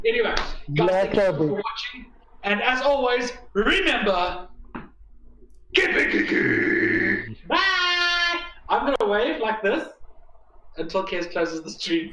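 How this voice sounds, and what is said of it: South African accent. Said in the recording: “I still have a South African accent, huh?”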